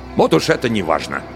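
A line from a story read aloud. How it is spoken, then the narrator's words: Irritated. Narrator (Russian): раздраженно ответил Варгас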